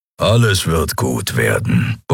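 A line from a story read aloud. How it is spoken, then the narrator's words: Grumbling. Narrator (German): brummte Keru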